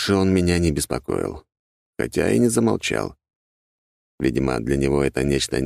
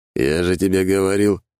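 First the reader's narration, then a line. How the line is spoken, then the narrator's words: Smirking grunt. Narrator (Russian): хмыкнул Дориан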